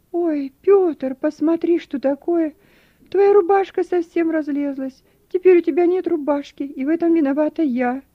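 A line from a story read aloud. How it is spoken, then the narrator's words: Regretful exclamation, small woman. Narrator (Russian): с сожалением, воскликнула маленькая прачка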